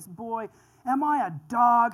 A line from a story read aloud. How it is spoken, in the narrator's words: he roared at David